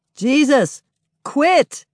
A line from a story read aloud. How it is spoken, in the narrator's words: Others pick up the yell, people on both sides of the battle, even Doug from his bed in the road